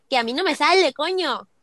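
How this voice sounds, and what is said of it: Put-on Spain Spanish accent. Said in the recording (Spanish): “¿Tú te animas a imitar un acento español?”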